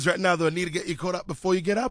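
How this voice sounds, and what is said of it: Hoarse, strained voice. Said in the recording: “I think that honey and warm water's working. A tiny bit at the very least ... one of the L's from the weekend was losing my voice”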